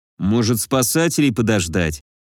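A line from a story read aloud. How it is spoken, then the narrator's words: Gloomy, doubtful. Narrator (Russian): Мрачно попытался отодвинуть неизбежное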